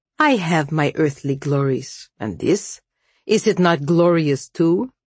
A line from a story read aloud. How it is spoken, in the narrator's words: His voice was thick with bitter irony